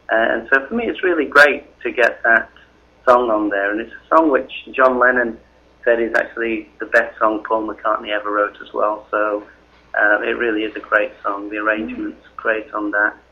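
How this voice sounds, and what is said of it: Northern English accent. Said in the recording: “I'm a Northern English person in England ... people with an accent like mine”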